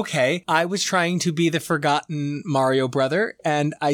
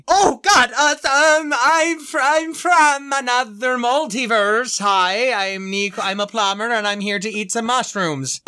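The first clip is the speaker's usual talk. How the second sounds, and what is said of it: Put-on Italian-style accent. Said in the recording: “you're going for an Italian accent. I thought it was Swedish.”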